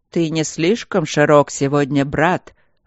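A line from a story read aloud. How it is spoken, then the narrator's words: Growling, like storm-tossed trees. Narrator (Russian): раздался другой голос, рычавший, словно множество деревьев шумело и трещало под грозовым ветром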